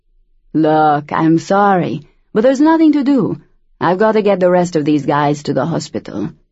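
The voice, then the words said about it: Thick regional accent. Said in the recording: “The driver had a thick, regional accent.”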